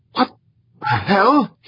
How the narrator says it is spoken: He gasped

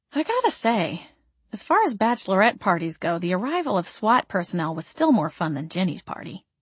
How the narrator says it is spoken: I murmured

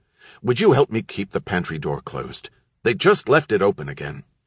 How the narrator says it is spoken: He simply said, in an irritated tone

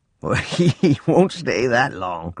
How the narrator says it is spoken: Grandpa chuckled

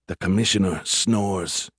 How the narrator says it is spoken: he said, lowering his voice

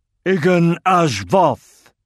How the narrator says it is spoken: Undin slapped the table and roared

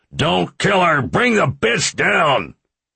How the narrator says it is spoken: Another yelled

